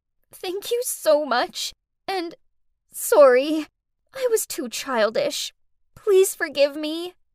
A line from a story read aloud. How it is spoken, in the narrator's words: through blurry eyes, Faye sobbed out